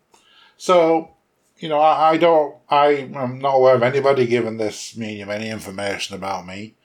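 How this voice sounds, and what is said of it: English accent. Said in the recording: “I am English. I was born in England. ... She would have known I was English maybe by my accent. I don't think it's ever left me ... I still sound a bit English.”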